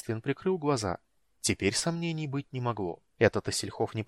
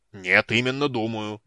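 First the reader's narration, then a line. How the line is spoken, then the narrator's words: Roared. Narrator (Russian): взревел Флинт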